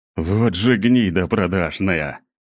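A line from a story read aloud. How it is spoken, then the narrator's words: Growl. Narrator (Russian): прорычал Гвен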